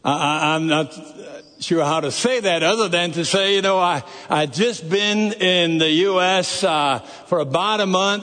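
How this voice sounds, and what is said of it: Noticeable non-Texan accent. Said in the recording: “this accent of mine ... my accent was quite a bit thicker than it is now. Well, at least for a Texan here”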